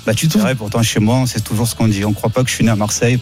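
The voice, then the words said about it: Strong Marseille French accent. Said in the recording (French): “t'as l'accent le plus marseillais ... t'as un accent magnifique”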